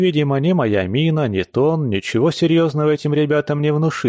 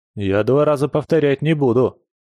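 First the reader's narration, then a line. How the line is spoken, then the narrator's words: Threatening tone. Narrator (Russian): добавил угрожающим тоном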